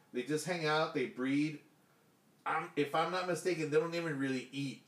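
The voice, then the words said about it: Thick Hispanic accent. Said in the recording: “My thick Hispanic accent.”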